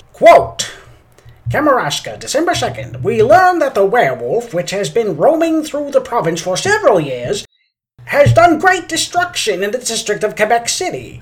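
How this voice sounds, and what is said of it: Old-timey radio announcer voice. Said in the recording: “I'm going to use my old-timey radio voice for this”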